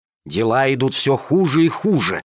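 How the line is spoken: Hissing in fury. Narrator (Russian): шипели они, позеленев от злости

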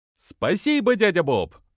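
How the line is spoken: Joyful chorus shout. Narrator (Russian): вновь хором прокричали суслики и радостно

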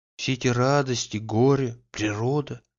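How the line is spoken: Whispering. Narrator (Russian): шептала она

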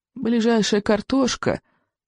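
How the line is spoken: Sad old man. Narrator (Russian): печально проговорил старый сморчок

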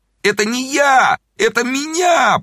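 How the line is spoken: Moaning. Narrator (Russian): простонал Зайчиков

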